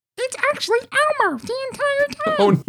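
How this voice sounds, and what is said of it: Good Elmo character voice. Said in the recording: “That's actually a pretty good Elmo impression”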